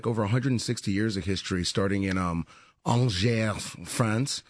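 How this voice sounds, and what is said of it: Good put-on French accent. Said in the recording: “That's my French accent. ... It's very good.”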